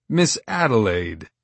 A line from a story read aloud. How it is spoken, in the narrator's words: I chuckled